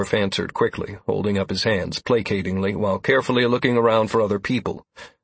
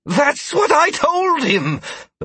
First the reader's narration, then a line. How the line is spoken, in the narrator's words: the man exclaimed, having been freed from Mir's grasp